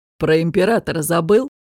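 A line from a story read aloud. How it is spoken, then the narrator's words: Mocking question. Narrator (Russian): насмешливо спросил Дестон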